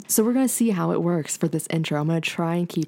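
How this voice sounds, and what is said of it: Deep radio-announcer speaking voice. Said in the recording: “women who have deeper voices ... You sound like you should be on like a radio show ... Or like a morning show ... my NPR voice ... has a new speaking voice”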